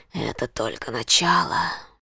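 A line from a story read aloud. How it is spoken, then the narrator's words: Whisper. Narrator (Russian): прошептал он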